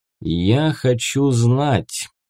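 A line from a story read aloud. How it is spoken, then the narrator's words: Slow. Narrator (Russian): медленно произнес Леонид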